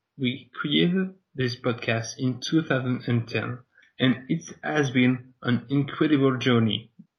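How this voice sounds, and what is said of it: French accent in English. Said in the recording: “a French wrestling podcast. Yes, sorry for my bad accent.”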